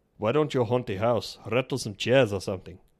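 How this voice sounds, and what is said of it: Put-on foreign accent. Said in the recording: “the only film I can recall hearing this accent”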